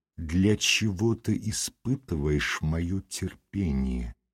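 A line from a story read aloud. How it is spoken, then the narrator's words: Slow, deliberate. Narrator (Russian): он медленно выговорил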